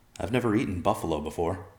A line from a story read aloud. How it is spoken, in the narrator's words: Evercloud said in a doubtful tone